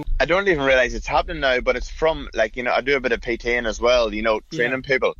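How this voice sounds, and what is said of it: Irish accent with slight Australian twang. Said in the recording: “you've got the Irish accent. You're never going to lose it ... You've got that little Australian twang.”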